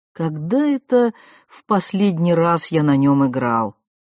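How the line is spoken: Snorting. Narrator (Russian): хмыкнул Стах

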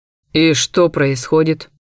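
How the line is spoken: Pointed, meaningful tone. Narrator (Russian): поинтересовался он, да таким тоном, словно я сразу должна была понять весь подтекст

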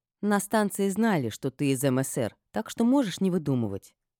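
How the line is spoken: Calm. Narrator (Russian): спокойно сказала я

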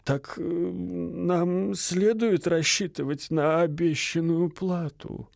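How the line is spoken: Timid question. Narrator (Russian): робко осведомился отец Фома

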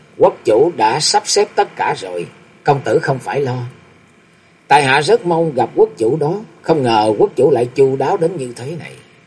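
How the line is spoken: Smiling speech. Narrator (Vietnamese): mỉm cười và nói

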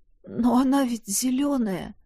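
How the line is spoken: Trembling voice. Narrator (Russian): дрогнувшим голосом уронил я

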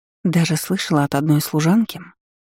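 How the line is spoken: Conspiratorial whisper. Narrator (Russian): зашептала Инесса заговорщически

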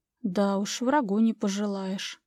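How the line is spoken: Quiet. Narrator (Russian): тихо сказала Анжела

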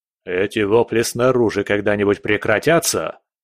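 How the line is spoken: Barking snap. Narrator (Russian): рявкнул

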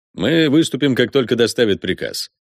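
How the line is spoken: Brisk confident military tone. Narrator (Russian): заверил он бравым генеральским тоном

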